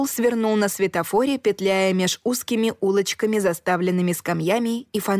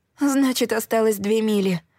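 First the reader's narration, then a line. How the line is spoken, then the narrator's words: Relieved moan. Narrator (Russian): простонала я облегченно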